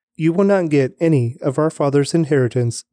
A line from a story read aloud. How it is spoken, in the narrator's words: they said